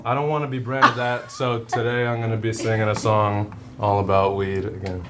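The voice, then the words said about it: Flat monotone delivery. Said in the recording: “monotone”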